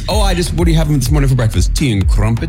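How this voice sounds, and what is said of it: Weak attempt at a British accent. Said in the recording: “You're really going to have to work on the accent a lot.”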